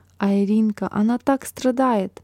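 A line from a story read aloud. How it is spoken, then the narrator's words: Whisper into ear. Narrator (Russian): Марина прошептала сестренке на ухо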